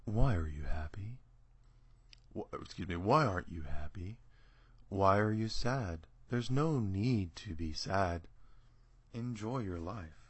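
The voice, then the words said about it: Soothing NPR-style announcer voice. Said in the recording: “the voice is this soothing voice that the NPR voice.”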